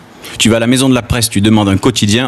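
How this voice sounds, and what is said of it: Southern French accent. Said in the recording (French): “je suis du Sud, j'ai l'accent du Sud... Ah mais toi tu as l'accent du Gard”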